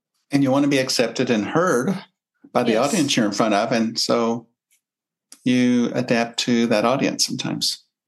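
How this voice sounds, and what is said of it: Soft Kentucky accent. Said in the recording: “you have a Kentucky accent. I mean, it's a soft, soft accent”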